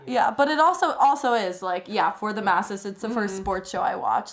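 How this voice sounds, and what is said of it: British accent. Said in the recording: “The amount of British people I know who live in Brooklyn ... I love the accent.”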